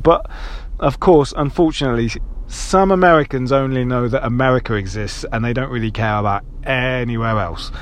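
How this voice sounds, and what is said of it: British accent. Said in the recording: “it's crazy being British in America. And you all love my accent”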